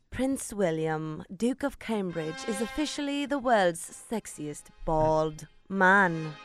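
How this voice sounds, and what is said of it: Put-on British accent. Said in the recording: “with your British accent”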